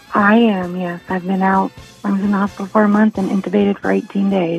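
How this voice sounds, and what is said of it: Whispery, hoarse lost voice. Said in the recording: “Do you have laryngitis or are you whispering? ... I've lost my voice since COVID ... that actually makes you sound very distinctive ... It's very, well, sexy.”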